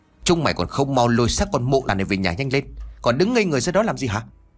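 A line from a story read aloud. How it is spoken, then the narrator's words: Old man's harsh shout. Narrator (Vietnamese): Lão Lý quát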